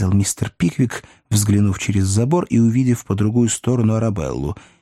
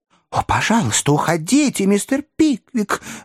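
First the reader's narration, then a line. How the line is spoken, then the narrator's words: Exclaiming. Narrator (Russian): воскликнула Арабелла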